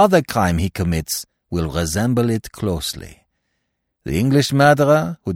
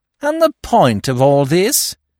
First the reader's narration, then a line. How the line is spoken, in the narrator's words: sneered Giraud